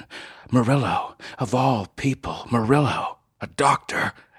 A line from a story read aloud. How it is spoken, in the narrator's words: Northrop wheezed